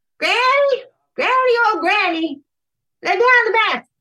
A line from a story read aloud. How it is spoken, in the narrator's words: he hollered